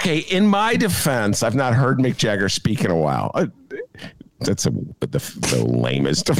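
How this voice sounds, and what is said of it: Usual voice. Nothing is said of it.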